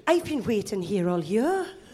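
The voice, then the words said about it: Good put-on Welsh accent. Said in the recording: “That's a banger Welsh accent. That's a good Welsh accent. ... Postman Pat level good ... Fireman Sam.”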